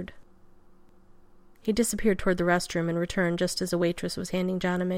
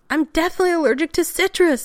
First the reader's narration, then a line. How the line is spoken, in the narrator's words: McKay almost shrieked